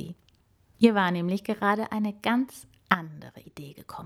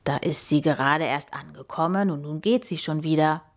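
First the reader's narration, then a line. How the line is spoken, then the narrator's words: Murmured. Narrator (German): murmelte er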